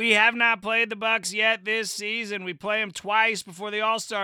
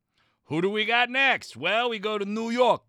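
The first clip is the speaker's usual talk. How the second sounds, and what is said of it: Put-on New York accent. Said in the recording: “That accent, don't worry about it, all right? Way better than a Boston one... you know how to talk like a New York guy”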